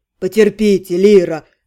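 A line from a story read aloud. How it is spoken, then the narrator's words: Deep bass voice. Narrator (Russian): пробасила Рыкана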